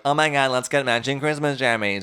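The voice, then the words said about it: Imitates another person's voice. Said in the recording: “That was my Catherine impression.”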